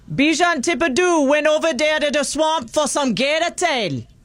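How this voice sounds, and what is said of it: Put-on Cajun accent. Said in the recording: “the Cajun accent ... it almost sounds Jamaican”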